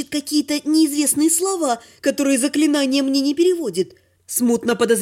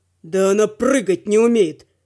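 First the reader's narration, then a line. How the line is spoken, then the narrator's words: Dragon's growl. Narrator (Russian): прорычал дракон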